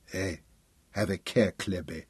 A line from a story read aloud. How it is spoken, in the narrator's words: Arbily murmured